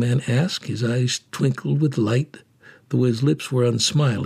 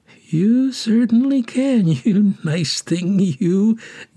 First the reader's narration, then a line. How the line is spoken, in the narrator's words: giggled the orphan keeper's assistant inwardly